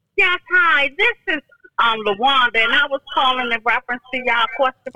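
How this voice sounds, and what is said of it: Hollering loudly on the phone. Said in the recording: “You don't got to holler. You can still talk in your normal voice.”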